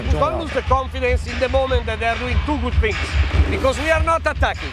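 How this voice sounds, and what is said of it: Heavy Italian accent in English. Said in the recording (Chinese): “这个意大利口音还是挺重的”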